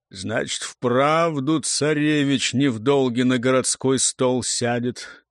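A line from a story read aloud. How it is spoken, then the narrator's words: Gloomy summing up. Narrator (Russian): мрачно подвел итог Телепеня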